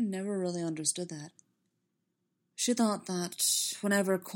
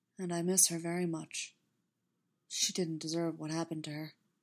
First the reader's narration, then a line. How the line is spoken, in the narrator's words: he added quietly